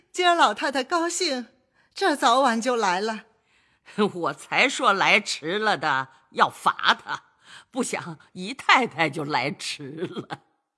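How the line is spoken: Laughing. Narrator (Chinese): 贾母 笑道

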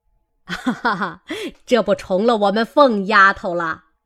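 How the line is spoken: Laughing old woman. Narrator (Chinese): 贾母笑道

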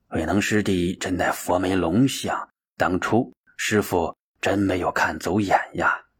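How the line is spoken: Muttering to himself. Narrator (Chinese): 他喃喃自语

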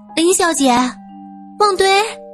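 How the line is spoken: Calling out. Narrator (Chinese): 苏三喊了一声

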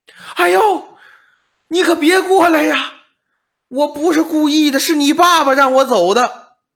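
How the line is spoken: Agonized scream. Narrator (Chinese): 嗷唠一声惨叫

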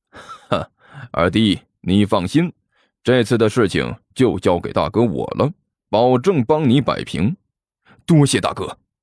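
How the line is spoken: Cold laugh. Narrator (Chinese): 刘阿贝冷然一笑

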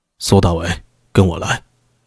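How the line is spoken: Deep, grave. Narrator (Chinese): 他朝苏大为点了点头，而后沉声道

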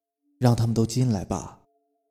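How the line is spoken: Flat, cool. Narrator (Chinese): 沈寒 淡淡的说

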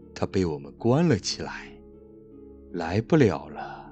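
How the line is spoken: Hoarse ghostly reply. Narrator (Chinese): 其中一个鬼用沙哑的声音回答

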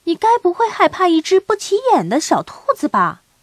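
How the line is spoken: Loud question. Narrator (Chinese): 提利小姐大声问道

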